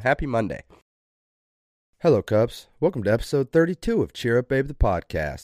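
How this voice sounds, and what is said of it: Slight southern twang. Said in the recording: “I feel like I kind of had a southern twang on that. That's my bad, not on purpose.”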